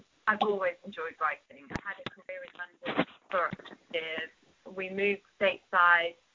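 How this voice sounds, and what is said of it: British accent. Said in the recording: “as you might be able to tell from my accent, I'm from the UK”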